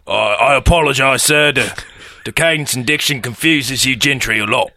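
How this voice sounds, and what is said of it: Put-on common lower-class accent. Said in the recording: “It's hard for me to tell with your common accent.”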